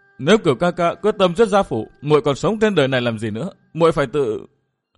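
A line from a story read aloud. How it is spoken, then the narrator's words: Sobbing. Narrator (Vietnamese): Anh Thư nức nở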